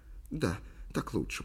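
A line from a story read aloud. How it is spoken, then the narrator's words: Whisper. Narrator (Russian): прошептала Ли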